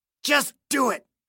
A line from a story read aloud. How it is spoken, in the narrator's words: Clayton hissed, his eyes squeezed wrinkled tight in anticipation of agony